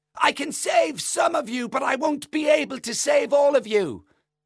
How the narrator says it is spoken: he's shouting

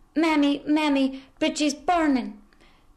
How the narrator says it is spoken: her daughter screaming

